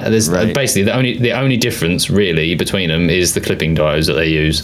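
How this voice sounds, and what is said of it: British English accent. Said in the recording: “my British accent”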